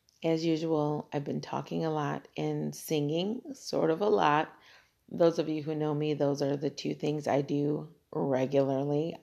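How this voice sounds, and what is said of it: Raspy, worn voice. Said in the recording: “Oh, my raspy voice. ... I'm going to cough.”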